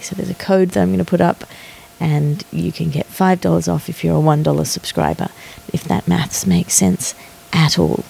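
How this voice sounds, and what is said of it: Tired, worn-down voice. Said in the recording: “As you can probably hear in my voice, I'm pretty tired... has left me a little bit worn down”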